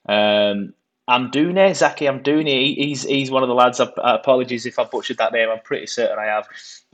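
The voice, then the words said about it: Burnley English accent. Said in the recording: “It's a Burnley accent.”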